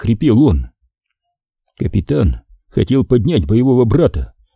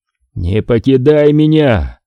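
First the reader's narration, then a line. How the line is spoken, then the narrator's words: Growled. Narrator (Russian): прорычал Курланд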